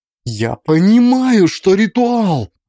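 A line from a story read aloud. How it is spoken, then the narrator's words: Near-shout, composure cracking. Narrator (Russian): почти выкрикнула Алиса, и ее самообладание дало трещину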